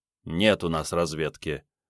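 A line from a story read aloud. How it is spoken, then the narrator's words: Gloomy. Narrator (Russian): мрачно сообщил Сан Саныч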